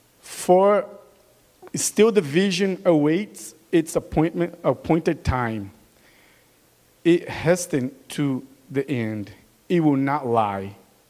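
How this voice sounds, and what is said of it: Brazilian accent. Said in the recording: “With my Brazilian accent.”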